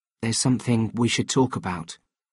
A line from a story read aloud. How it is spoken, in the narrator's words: I said gently